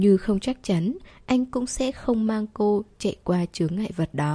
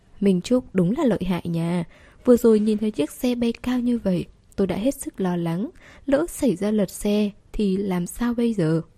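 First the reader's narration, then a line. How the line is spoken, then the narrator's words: Smiling praise. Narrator (Vietnamese): Tuân Tĩnh mỉm cười khen một câu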